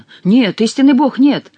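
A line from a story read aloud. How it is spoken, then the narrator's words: Exclaiming. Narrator (Russian): воскликнул Сен-Люк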